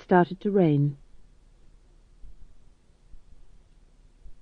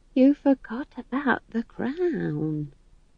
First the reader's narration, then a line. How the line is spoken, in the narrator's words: whispered Nanny Ogg